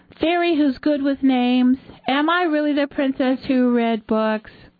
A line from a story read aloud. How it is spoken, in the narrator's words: She cupped her hands and yelled